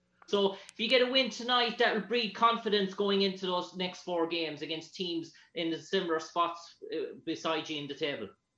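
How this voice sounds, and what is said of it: Irish accent. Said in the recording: “Where are you from? ... Ireland. ... I like your accent. It's tough. ... I want to learn how to talk like that. ... I was too much listening to your accent.”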